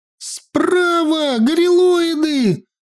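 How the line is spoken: Sudden shout. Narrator (Russian): внезапно закричала Наташка

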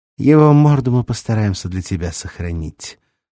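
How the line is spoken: Dry. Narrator (Russian): сухо сказала мать

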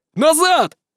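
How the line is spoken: Loud yell. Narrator (Russian): заорал виконт Крупацкий

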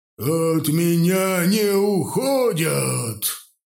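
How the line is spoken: Thundering. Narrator (Russian): прогремел глаз бога

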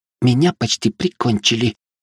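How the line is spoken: Whisper. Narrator (Russian): шепотом произнесла Велея

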